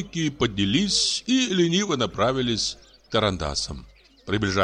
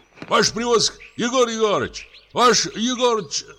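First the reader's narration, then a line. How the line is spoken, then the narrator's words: Group shouting. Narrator (Russian): закричала вторая группа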